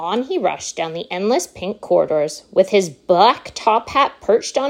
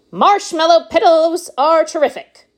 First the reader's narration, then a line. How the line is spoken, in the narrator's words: shouted Mr